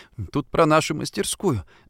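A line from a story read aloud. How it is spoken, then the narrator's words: Confused, smiling. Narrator (Russian): сказала она и растерянно улыбнулась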